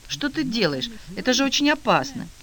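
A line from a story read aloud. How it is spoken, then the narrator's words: Horrified exclamation. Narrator (Russian): пришла в ужас и воскликнула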